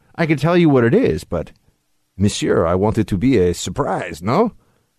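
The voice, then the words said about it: Half-hearted put-on French accent. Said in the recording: “I didn't even go all in on the French accent there. I'm getting a little wimpy”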